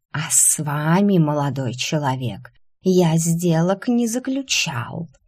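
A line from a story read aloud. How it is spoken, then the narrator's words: Grumpy hiss. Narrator (Russian): сварливо прошипел Полос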